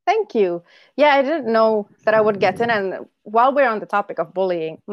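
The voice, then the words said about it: Indonesian-accented English. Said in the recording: “my accent ... speak English with that accent ... I'm from, my country is called Indonesia”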